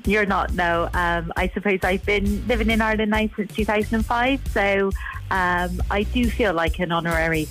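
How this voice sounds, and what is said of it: English Bristolian accent. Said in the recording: “despite your accent ... Bristolian”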